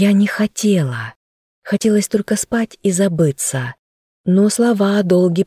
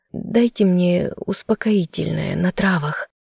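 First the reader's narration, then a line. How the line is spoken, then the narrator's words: Hoarse, creaky request. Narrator (Russian): попросила я, и свой хриплый и скрипучий голос показался чужим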